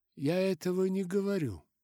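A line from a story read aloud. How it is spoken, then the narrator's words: Soft objection. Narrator (Russian): мягко возразил Михаэлис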